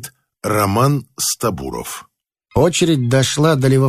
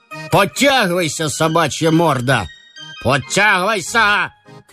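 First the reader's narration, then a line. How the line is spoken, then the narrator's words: Officer shouting. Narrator (Russian): кричал унтер-офицер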